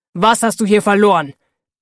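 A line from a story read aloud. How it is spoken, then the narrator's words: Thundering outburst. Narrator (German): donnert sofort los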